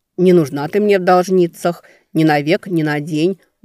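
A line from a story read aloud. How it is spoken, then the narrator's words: Grumbling. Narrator (Russian): буркнула Велька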